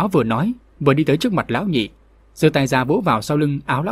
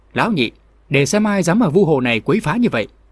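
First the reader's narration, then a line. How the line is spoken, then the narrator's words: Loud shouted question. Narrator (Vietnamese): tên trong bọn lớn tiếng quát hỏi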